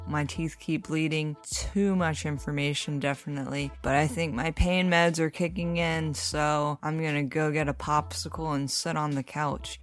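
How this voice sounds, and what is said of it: Strained, slightly odd-sounding speech. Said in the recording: “it was kind of a struggle for me to talk. As you can tell, I sound a little weird.”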